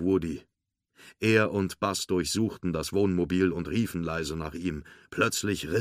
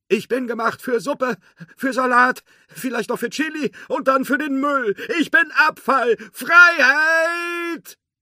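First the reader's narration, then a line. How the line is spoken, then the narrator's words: Shouted. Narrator (German): rief er noch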